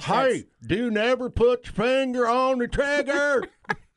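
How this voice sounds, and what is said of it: Put-on redneck accent. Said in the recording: “in your best redneck”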